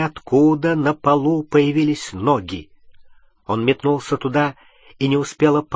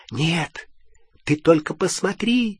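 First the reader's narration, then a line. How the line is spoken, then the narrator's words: Cheerful whisper. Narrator (Russian): весело зашептала Полумна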